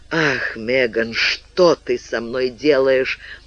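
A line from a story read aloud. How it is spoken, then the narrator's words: Low hoarse voice. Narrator (Russian): Низким, хриплым голосом произнес Олли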